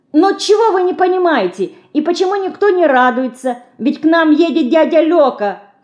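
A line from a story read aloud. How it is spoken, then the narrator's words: Shouting. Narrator (Russian): кричала Динка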